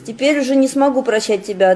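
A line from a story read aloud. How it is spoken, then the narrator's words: Plain. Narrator (Russian): ответил Трофимов врагу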